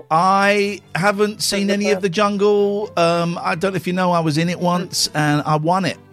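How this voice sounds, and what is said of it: Speaking with an American accent. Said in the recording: “talking in that voice? ... Have I got the American accent?”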